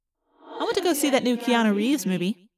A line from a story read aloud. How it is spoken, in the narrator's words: I said